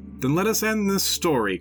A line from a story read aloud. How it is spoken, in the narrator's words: cried Kriemhild